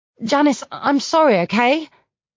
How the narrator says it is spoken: calling out too loudly

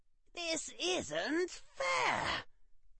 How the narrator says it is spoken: Harry shrieked

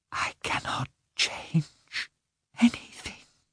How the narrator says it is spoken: whispered

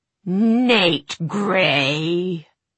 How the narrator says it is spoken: she spat

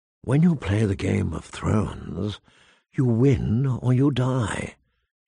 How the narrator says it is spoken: she whispered

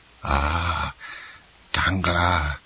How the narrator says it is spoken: whispered Caderousse

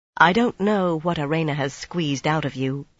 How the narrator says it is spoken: Egwene said quietly

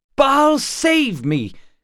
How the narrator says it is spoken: cried Gar

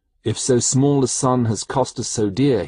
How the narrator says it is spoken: he murmured

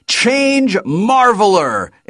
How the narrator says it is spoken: I shouted

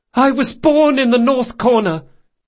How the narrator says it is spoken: yelled

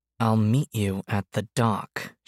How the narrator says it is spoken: she repeated through gritted teeth

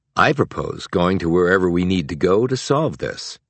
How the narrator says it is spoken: replied Decker

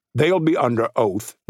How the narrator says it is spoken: Noose said

